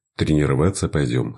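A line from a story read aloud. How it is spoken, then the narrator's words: Plain. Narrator (Russian): спросил он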